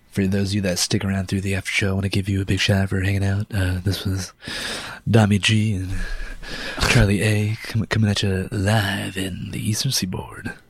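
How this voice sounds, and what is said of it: Smooth jazz radio announcer voice. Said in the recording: “That's my like jazz radio voice.”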